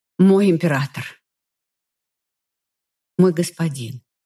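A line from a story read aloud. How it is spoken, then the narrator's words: Slightly hoarse. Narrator (Russian): Чуть охрипшим уже от часа разговоров голосом произнесла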